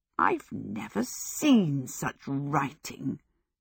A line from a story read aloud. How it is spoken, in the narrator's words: she grumbled to the human skull